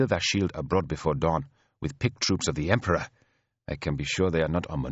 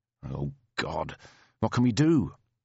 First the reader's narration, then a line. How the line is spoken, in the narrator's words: smiled grimly